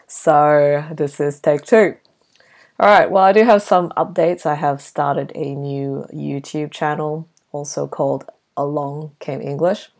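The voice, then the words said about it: Husky, slightly hoarse voice. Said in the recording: “As you can tell, I'm still sick ... My voice is still a bit husky”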